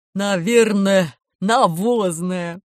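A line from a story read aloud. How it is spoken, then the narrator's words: Laughing. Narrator (Russian): засмеялся Водяной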